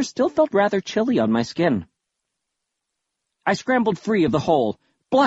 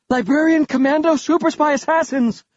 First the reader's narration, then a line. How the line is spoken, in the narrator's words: I cried out